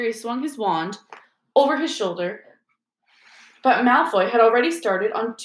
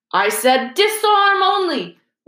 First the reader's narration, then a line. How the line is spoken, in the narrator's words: Lockhart shouted in alarm over the heads of the battling crowd